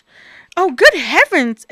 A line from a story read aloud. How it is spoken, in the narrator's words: exclaimed Bob